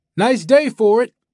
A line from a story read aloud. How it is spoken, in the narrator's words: Greybeard raises his arm and waves, shouts